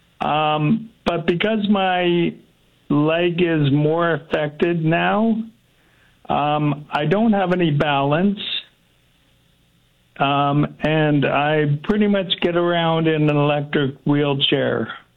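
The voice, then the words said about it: Slightly strained voice. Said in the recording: “My voice is getting a little strained”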